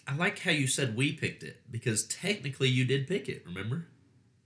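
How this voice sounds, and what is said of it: Southern American accent. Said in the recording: “I think they may have picked that up from my accent. ... At least definitely Southern.”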